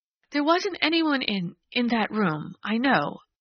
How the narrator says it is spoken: she faltered

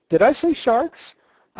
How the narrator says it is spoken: I exclaimed hastily

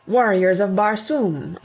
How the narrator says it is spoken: I cried

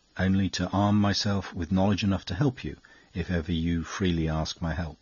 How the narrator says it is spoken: he replied very gently

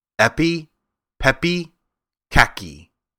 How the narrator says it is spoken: said slowly

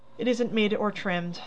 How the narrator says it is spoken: sighed Meg faintly, for a sudden recollection of the cost still to be incurred quite overwhelmed her

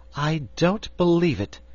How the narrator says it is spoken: said Dorothy indignantly

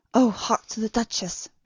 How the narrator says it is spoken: whispered Garth

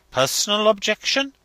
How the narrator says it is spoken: he exclaimed

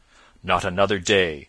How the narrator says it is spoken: said the prior sternly

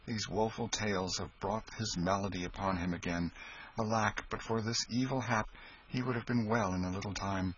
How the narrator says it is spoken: sighed Hendon

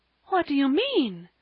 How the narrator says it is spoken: gasped Mrs

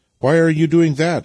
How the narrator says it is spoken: asked Vasily

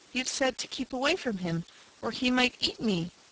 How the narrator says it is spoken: young Bill faltered

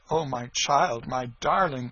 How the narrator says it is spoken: she cried

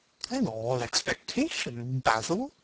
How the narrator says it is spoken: murmured his companion

